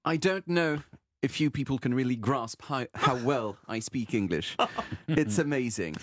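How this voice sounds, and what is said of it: Put-on upper-class British accent. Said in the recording (French): “l'accent british de la haute société que je vous ai fait à l'instant”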